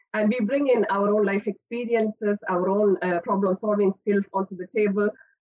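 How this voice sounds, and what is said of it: Indian English accent. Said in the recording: “as you can understand from my accent, I'm not from the UK ... I spent my childhood and early years of higher education in India”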